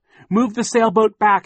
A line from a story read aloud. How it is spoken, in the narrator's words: shouted